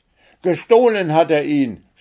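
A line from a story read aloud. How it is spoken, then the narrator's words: Shouting. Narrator (German): schrie Omar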